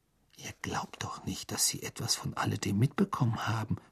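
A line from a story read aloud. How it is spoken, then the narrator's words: Whisper. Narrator (German): flüsterte Hermine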